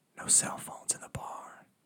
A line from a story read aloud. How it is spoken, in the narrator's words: whispered in his ear